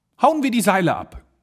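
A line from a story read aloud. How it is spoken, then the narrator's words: Called out. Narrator (German): rief er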